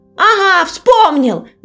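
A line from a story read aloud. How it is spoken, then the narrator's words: Shout. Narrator (Russian): закричал ежик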